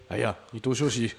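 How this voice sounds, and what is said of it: Deeper, manly-sounding voice. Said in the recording (Chinese): “可能就是要用比较 man 的声音说”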